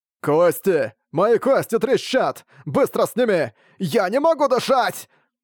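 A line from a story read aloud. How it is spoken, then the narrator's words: Immobilized man shouting. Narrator (Russian): обездвиженный он прокричал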